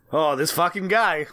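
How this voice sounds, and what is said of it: New York accent. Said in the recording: “I'm back in my New York accent a little bit”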